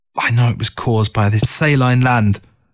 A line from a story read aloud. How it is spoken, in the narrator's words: Through gritted teeth, she muttered